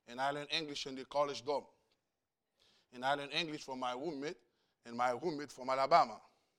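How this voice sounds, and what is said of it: Very heavy non-native accent. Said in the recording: “I have a very, very heavy accent.”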